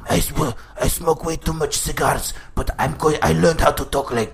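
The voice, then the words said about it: Dracula-style accent, strained throaty voice. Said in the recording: “I am Dracula. Do you like my accent?... That that hurt my throat.”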